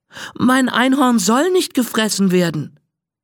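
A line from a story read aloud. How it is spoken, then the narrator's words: Sobbing. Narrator (German): schluchzt Anna auf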